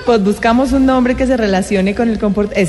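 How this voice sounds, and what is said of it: Put-on Bogotá (rolo) accent. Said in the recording (Spanish): “¿Ese acento mío qué? ... Es como, muy rolo. ... pero está rarísimo. ... Le cambian la voz”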